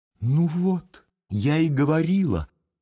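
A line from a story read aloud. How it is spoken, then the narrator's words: Joyful lady. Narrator (Russian): радостно подхватила дама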